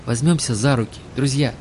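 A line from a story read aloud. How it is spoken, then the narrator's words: Trembling voice. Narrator (Russian): предложил Олег дрожащим голосом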